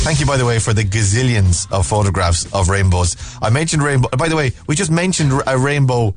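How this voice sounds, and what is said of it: Usual voice. Nothing is said of it.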